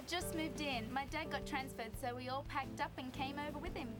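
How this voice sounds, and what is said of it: Girl speaking with an accent. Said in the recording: “I love her accent.”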